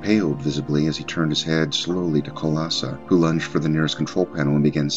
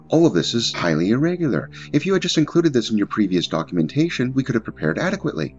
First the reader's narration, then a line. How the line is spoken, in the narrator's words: Ivesk began indignantly